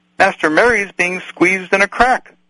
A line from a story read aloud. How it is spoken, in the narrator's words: cried Sam